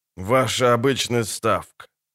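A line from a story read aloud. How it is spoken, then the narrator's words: Man speaking through teeth. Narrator (Russian): процедил мужчина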